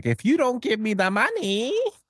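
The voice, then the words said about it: Ridiculous accent imitating Teddy KGB. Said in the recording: “Malkovich ... his Teddy KGB character ... ridiculous accent.”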